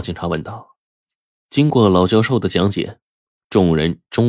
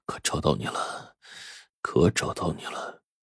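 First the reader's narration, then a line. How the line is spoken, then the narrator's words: Murmuring to oneself. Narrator (Chinese): 喃喃自语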